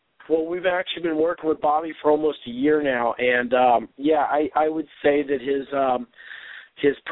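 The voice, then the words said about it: Hoarse voice. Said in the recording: “I'm a little hoarse. I'm a little under the weather”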